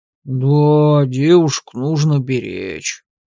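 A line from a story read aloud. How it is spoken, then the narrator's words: Deep older male voice. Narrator (Russian): пробасил седоватый Вангард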